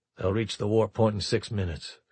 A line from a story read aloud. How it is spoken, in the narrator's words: Houston said flatly